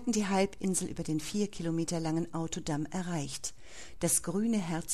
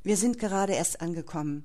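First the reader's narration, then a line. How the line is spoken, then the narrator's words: Plain. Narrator (German): sagte Holger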